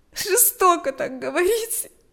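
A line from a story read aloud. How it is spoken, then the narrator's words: Sobbing. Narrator (Russian): ответила Галя, всхлипывая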